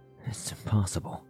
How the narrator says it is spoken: Day whispered, her voice tinged with disbelief

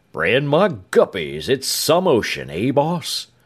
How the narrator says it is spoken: Chow remarked in an awed voice

